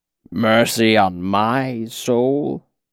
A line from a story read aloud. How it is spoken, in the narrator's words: He gave a weak croak that might have been a chuckle on a better day